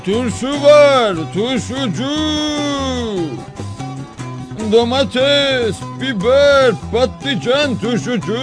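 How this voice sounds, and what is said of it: Shouting like a street vendor. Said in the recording (Turkish): “bağırmaya başlamış”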